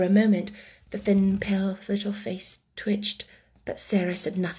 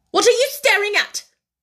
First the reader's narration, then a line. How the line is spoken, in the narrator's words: demanded Miss Minchin sharply